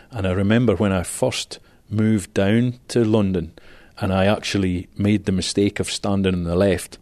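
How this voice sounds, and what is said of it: Scottish accent. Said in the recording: “as you can hear from my accent, I'm from Scotland”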